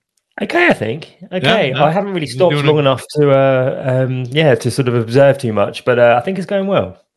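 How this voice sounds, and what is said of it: British accent. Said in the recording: “As I'm sure you can tell by my accent, I'm British.”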